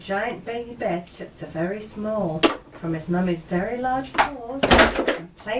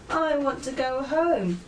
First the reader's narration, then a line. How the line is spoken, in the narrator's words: wailed the very small